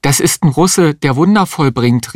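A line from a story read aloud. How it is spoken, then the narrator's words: Exclaimed. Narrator (German): rief die Existenzialistin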